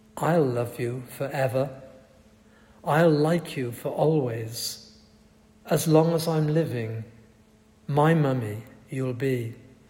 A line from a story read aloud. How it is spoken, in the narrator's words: her son sang